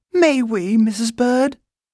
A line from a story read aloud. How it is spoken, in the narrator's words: pleaded Judy